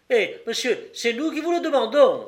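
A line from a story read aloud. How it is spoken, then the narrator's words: Exclaimed. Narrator (French): s'écria la Babette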